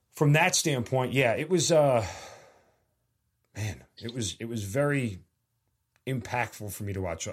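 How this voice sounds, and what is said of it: Slightly emotional voice. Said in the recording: “I got a little bit emotional there.”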